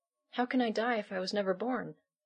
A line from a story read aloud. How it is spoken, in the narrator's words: Allison insisted, her voice trembling